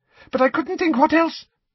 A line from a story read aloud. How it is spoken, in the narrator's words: he said anxiously